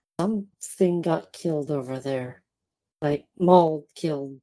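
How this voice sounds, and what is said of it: Whispering. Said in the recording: “kind of whisper”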